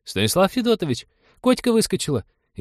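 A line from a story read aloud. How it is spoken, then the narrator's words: Frightened exclamation. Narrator (Russian): испуганно воскликнула Полина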